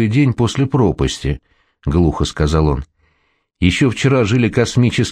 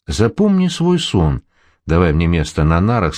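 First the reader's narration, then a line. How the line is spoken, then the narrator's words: Plain. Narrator (Russian): сказал Володя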